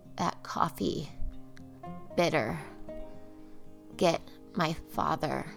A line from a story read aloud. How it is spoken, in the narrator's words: Carol mumbled to Shell